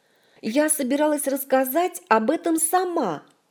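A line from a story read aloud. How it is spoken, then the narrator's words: Shouted after someone. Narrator (Russian): Вслед ему крикнула Ольга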